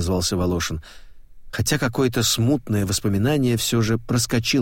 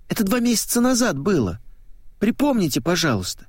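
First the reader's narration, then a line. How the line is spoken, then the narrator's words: Pleading girl. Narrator (Russian): взмолилась девчонка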